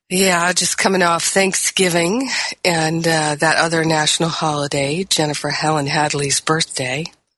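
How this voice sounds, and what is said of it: Voice sounds a bit unwell. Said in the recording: “as you can hear in my voice, I've got a little something-something happening in my voice, something-something that's not so pleasurable”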